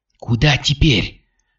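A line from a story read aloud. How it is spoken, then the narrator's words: Exhaling. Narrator (Russian): выдохнула Катя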